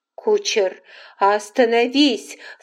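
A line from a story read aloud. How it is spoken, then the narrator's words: Shout. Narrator (Russian): закричала Скарлетт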